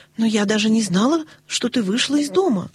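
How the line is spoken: Exclaim. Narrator (Russian): воскликнула Нэнси

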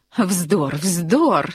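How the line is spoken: Woman laughing. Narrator (Russian): смеялась дама

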